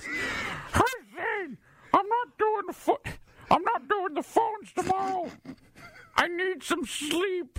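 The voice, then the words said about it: Imitates another person's voice. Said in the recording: “In my best Doan voice.”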